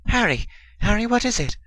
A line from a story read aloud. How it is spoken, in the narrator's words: Ginny exclaimed